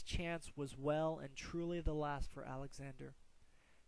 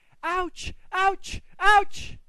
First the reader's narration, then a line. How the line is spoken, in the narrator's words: He was screaming